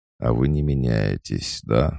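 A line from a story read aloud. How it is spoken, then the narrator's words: Sighed. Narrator (Russian): вздохнул Хельмер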